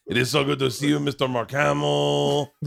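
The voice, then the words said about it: Chewbacca character voice. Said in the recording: “can you do an impression of Chewbacca?”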